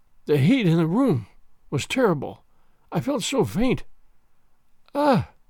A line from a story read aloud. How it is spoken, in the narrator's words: She uttered a groan, murmured faintly